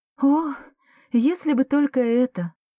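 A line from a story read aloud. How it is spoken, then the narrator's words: Sighing. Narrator (Russian): вздохнула Эмма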